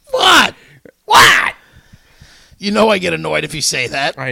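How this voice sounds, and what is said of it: Usual voice. Nothing is said of it.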